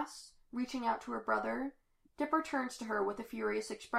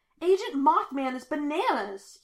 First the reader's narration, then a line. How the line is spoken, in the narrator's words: he shouts